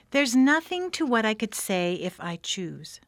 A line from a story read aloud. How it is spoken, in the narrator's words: Duchess replied in a pleased tone